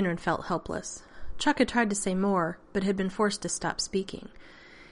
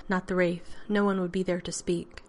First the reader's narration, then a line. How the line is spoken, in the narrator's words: Shinabi added gravely